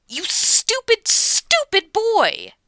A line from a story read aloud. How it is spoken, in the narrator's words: she snaps